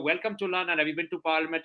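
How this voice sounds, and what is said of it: Put-on British accent. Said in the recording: “I've been working on my British accent. Would you like to hear?”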